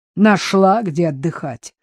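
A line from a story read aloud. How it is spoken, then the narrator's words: Snorted. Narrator (Russian): фыркнула хозяйка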